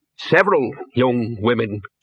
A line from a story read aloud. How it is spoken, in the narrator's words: said the Dean